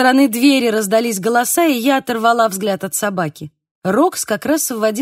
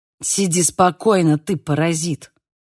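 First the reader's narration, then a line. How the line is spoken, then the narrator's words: Hissed. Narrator (Russian): прошипела она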